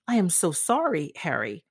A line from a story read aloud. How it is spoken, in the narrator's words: cried